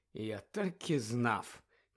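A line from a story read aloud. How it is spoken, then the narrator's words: Heavy sigh. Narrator (Ukrainian): тяжко зітхнув містер Візлі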